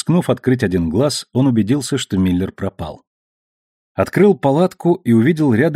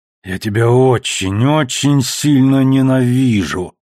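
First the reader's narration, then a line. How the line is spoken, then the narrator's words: Growled. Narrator (Russian): прорычал Холден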